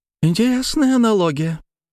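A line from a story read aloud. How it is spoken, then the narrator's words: Sudden laughter. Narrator (Russian): она неожиданно засмеялась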